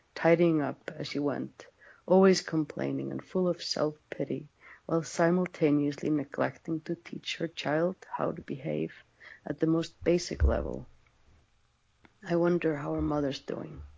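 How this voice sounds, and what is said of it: Noticeable accent, flowing reading voice. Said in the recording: “In my accent? ... Yeah, I love your accent. ... even more so when it's read in your accent, how poetic and how flowing”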